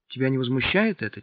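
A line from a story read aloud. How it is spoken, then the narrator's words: Quiet. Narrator (Russian): тихо сказала Наташа Липочке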